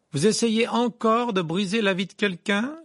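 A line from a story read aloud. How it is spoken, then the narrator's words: Loud, forceful. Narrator (French): lança Harry d'une voix forte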